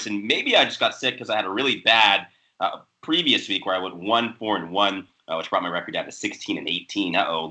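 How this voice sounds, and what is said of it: Hoarse voice. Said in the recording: “I'm still kind of recovering from it. You can probably hear it in my hoarse voice.”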